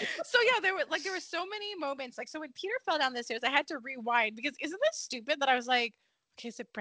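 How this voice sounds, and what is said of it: Usual voice. Nothing is said of it.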